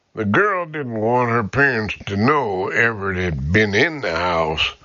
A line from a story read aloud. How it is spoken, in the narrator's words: Harrison murmured